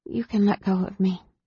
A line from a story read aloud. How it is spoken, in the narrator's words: she mumbled